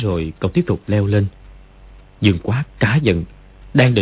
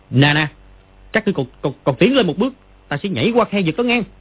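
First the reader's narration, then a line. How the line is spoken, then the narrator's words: Loud shout. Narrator (Vietnamese): Nó quát to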